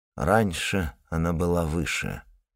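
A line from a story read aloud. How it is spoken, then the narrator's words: Muttering. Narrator (Russian): пробормотал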